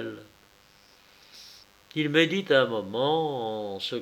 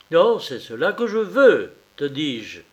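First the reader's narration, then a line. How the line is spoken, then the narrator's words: King exclaiming, growing irritation. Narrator (French): s'écria le roi dans un commencement d'irritation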